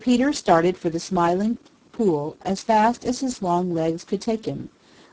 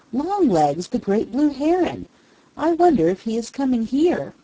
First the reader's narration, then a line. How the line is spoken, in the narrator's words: exclaimed Peter